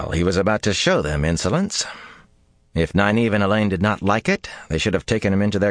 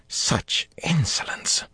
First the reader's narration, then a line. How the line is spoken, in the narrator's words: Saritha muttered